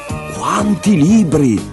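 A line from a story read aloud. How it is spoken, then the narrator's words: Exclaimed. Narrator (Italian): esclamò Leo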